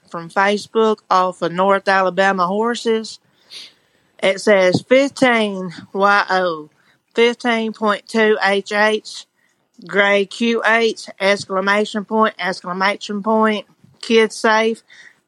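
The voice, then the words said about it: Tennessee accent. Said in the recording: “I think that's actually her accent ... She's in Tennessee ... Sounds like my neighbor ... that's actually how she talks”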